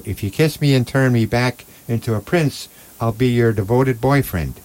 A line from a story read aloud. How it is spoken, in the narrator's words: Then the frog cried out